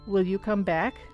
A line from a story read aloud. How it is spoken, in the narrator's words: asks